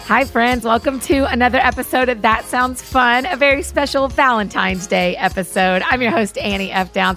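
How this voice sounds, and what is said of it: Slightly sick-sounding voice. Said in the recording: “you'll have to forgive my voice a little bit as I'm a little bit under the weather”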